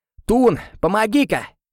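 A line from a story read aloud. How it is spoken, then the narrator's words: Shout, Frenchman. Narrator (Russian): крикнул француз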